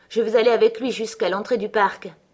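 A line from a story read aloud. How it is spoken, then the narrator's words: Plain. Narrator (French): dit-il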